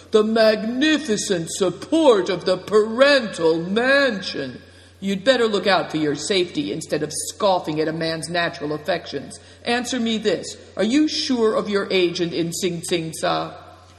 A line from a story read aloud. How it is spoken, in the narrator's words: cried Greencoat